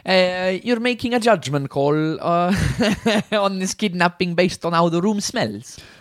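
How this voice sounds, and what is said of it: Stereotypical Italian accent. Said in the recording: “This stereotypical Italian accent”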